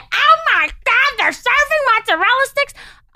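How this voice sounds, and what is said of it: Loud screaming imitation of a girl. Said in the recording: “the biggest fucking mouth. I could hear her screaming down the hall ... She was the loudest motherfucker ... that stupid voice”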